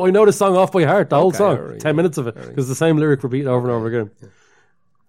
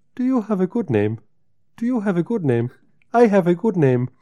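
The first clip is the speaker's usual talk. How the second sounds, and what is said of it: Imitates another person's accent. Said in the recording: “I'm doing William Onabiar's accent ... I'm doing his accent”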